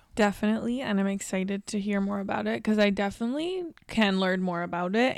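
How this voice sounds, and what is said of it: Slightly raspy voice. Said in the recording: “I apologize if my voice sounds a little raspy. I think I partially lost it from drinking too much tequila this weekend and yelling and screaming”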